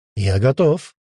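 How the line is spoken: Cheerful report. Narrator (Russian): Бодро доложил он Демидову

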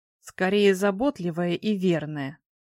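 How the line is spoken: Grumbling, stressing last word. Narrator (Russian): проворчала я, выделяя последнее слово

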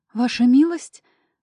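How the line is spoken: Surprised exclamation. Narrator (Russian): удивленно воскликнула

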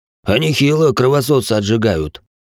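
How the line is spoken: Snorting soldier. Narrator (Russian): хмыкнул один из бойцов

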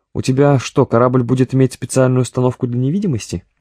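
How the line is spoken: Snide question, commander. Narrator (Russian): ехидно спросил комбат

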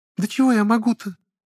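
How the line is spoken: Frightened girl. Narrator (Russian): Отчего-то испуганно сказала девушка

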